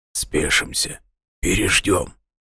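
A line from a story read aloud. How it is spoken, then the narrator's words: Very quiet command. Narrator (Russian): совсем тихо скомандовал Нимрод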